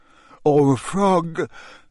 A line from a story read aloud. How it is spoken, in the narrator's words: yawned Harry